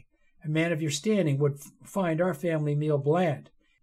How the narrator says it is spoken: Alistair continued, though at first his voice seemed to waver slightly

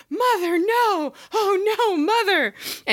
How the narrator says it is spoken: Norman scream in surprise from the house

